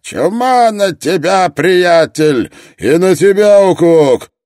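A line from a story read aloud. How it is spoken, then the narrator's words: Roaring reply. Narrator (Russian): проревел в ответ Строн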